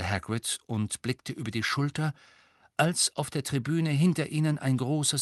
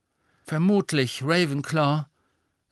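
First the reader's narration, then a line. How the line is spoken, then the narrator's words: Dejected voice. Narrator (German): sagte Harry mit bedrückter Stimme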